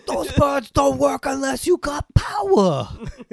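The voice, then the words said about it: On-the-spot impression of a film character. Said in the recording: “best on the spot impression”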